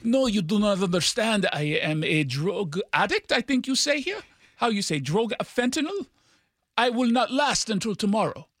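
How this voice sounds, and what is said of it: Bad fake French accent. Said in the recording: “sounded like an American doing an impression of a French person ... I don't think that was an actual accent. That sounded like a bad version of a French accent.”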